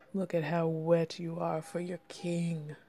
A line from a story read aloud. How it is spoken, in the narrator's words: he growled in amusement